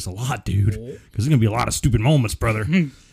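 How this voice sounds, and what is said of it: Imitates another person's voice. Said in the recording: “I'm going to be doing the Hogan voice”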